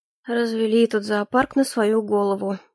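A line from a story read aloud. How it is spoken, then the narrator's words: Muttering over laughter. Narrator (Russian): пробормотал он под наш несмолкающий хохот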